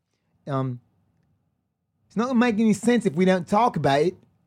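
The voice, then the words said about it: Attempted South African accent. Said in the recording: “A South African accent? ... South African.”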